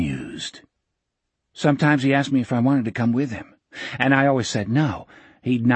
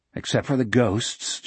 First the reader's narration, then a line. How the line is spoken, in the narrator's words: Jack muttered